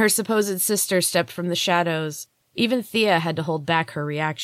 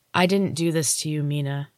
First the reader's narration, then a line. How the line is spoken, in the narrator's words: Thea said, shaking her head sadly